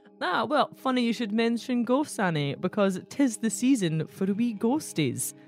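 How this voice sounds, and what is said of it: Put-on Dundonian Scottish accent. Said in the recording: “your Dundonian accent”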